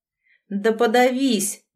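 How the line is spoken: Gruff mutter. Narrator (Russian): буркнула Василиса

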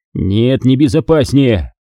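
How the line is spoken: Barked. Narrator (Russian): рявкнул Ченс

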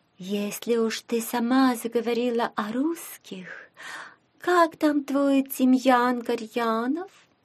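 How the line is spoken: Insinuating, woman. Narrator (Russian): вкрадчиво вмешалась Офелия

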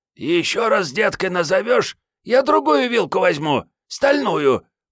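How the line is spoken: Hoarse rasp. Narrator (Russian): прохрипела Мариетта

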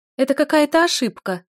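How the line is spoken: Shrieking. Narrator (Russian): взвизгивает Катя

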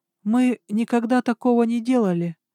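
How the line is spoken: Timid. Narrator (Russian): робко подала голос одна из них

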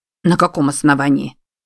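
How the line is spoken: Gruff mutter. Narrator (Russian): буркнул Минадье

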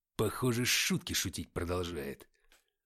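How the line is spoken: Growled. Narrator (Russian): прорычал Артем

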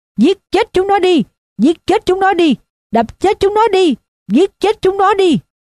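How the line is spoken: Screaming. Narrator (Vietnamese): Rồi nó gào lên

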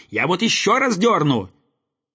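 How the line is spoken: Angry boy shouting. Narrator (Russian): Слова эти рассердили мальчика, закричав

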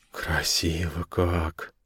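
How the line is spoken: Breathy exhale. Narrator (Russian): выдохнул София

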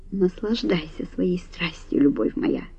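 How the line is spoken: Quiet. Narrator (Russian): тихо сказал он

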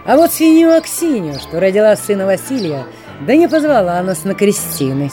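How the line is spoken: Bold cheerful young man. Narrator (Russian): смело и весело рассказывал молодец

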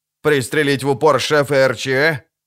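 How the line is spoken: Grumbling. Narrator (Russian): проворчал Амос

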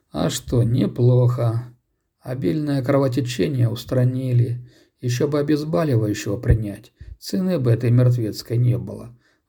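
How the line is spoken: Sighing. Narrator (Russian): вздохнул Сергей

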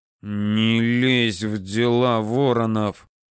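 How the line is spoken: Through gritted teeth. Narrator (Russian): сквозь зубы сказал Данияр

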